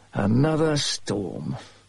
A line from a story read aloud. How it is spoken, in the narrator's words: I said bitterly